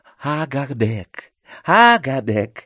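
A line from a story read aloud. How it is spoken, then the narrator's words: Silky prompting voice. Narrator (Russian): шелковым голосом подсказал Ходжа Насреддин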